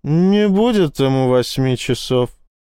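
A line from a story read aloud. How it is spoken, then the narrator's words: Drunken voice. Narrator (Russian): сказала она ощутимо пьяным голосом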